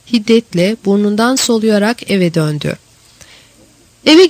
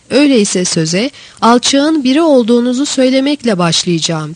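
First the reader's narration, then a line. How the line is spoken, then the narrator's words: Cried out. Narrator (Turkish): diye haykırdı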